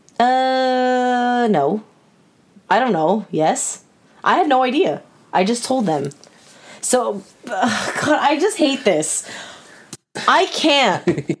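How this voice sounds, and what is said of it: Yelling, raised angry voice. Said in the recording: “As you were yelling”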